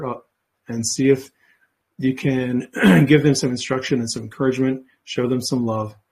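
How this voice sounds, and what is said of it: Hoarse, strained, fading voice. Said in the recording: “I've been talking for a while, and I'm starting to lose my voice.”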